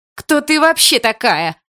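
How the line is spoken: Yelling again. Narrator (Russian): Опять заорала мать Есина

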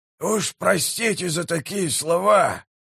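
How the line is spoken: Hoarse rasp. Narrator (Russian): прохрипел прищур

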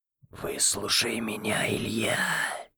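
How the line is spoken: Grating whisper. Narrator (Russian): Скрежещущим шепотом сказала Ангелина

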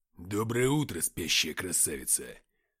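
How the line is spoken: Growled. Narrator (Russian): прорычал Уфимцев

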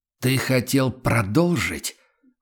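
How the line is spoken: Deep menacing growl. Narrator (Russian): голос Прайса прозвучал, как утробное рычание готовящегося к атаке зверя

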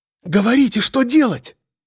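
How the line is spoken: Exclaiming. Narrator (Russian): воскликнула Яна

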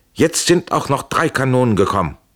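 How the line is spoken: Joyful call. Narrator (German): rief freudig

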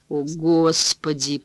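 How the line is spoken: Moaning. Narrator (Russian): простонал Данкин

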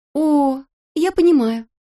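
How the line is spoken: Exclamation. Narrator (Russian): воскликнула

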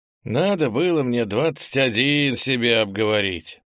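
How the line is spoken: Sighing. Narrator (Russian): Вздохнул Ант

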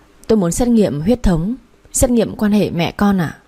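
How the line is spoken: Trembling. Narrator (Vietnamese): Tôi run run bảo bác sĩ

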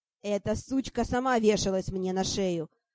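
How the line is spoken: Snapping. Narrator (Russian): Огрызнулся Бриак

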